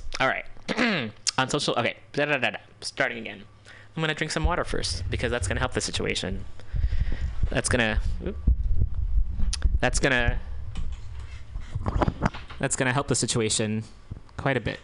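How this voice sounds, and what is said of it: Strained, fading voice. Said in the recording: “starting to lose my voice.”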